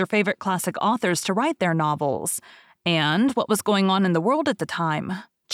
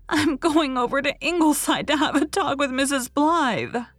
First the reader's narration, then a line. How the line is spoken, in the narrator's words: she sobbed